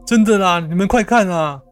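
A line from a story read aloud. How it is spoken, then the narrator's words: Shouting. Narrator (Chinese): 阿文又大喊着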